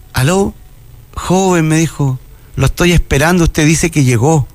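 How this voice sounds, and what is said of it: Old grandmother's voice. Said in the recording (Spanish): “una voz de abuelita”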